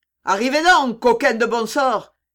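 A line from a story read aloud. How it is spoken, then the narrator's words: Shouting, strong southern accent. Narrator (French): cria-t-il avec un terrible accent du midi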